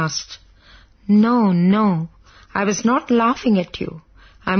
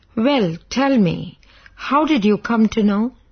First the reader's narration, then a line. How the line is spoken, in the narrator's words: I asked